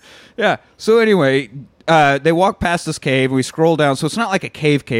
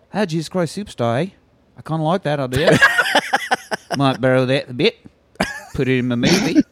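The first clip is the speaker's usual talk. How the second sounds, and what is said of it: Good put-on New Zealand accent. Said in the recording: “You got a great New Zealand accent.”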